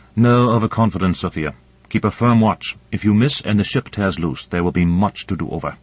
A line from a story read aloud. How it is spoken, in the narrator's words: Boronova said sternly